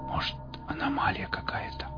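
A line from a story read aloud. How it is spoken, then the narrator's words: Whisper. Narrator (Russian): прошептал Костик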